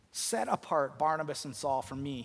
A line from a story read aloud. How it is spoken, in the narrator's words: he said